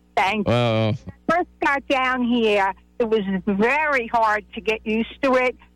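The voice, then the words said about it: New York accent with Southern tinge. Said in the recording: “You have a Mississippi accent. You have a Southern accent. ... I think you have a New York accent. ... It's New York with a little bit of Southern flair to it. You have a very interesting accent.”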